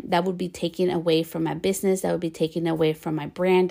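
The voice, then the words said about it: Bilingual Spanish-English speaker's accent, fast talking. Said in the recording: “Some people say I talk too fast ... I have an accent. I'm bilingual. I speak Spanish and English.”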